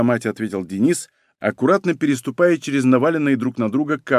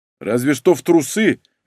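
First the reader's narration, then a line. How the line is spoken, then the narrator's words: Barked. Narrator (Russian): рявкнул Егор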